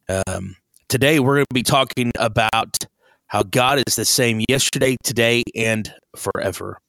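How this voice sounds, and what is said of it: Voice affected by feeling unwell. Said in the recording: “I'd like to apologize for my voice. I'm hoping that it doesn't affect too much. I'm not feeling real well”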